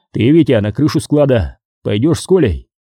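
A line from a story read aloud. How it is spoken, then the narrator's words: Sharp shout. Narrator (Russian): прикрикнул на него Николай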